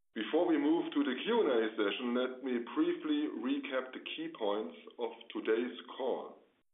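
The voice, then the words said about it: Hoarse, congested voice. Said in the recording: “Sorry for my voice, I have a cold”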